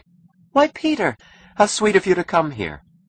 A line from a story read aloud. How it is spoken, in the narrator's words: She smiled without astonishment and said happily